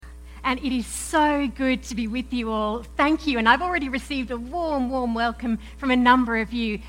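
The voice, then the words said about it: Australian accent mixed with English. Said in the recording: “I am not from around here ... I'm an Aussie ... my funny accent ... It's this weird mix and mingling of Aussie and English.”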